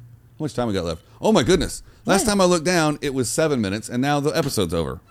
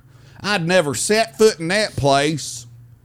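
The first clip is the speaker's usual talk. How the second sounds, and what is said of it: Put-on country accent. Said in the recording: “I have to go to a country accent for every time I do a character”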